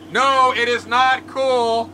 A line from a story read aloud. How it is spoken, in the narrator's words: he shouts back